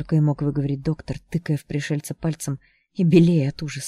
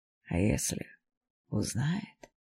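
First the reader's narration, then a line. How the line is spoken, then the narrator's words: Muffled grating whisper. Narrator (Russian): зашептало пугало ватным, скрежещущим голосом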